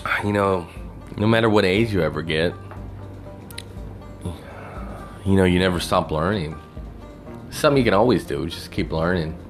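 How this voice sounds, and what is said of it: Southern twang accent. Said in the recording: “hobo with a southern twang”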